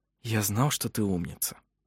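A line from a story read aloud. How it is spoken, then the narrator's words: Whispered. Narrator (Russian): прошептал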